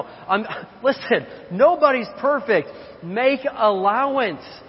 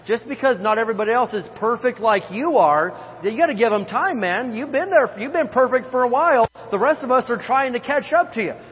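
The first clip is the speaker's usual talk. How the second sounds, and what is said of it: Sarcastic delivery. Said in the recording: “I'm being sarcastic.”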